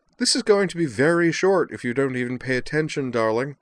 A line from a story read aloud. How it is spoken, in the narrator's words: Liza declared merrily